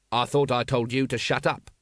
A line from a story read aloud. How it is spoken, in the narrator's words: snapped Vimes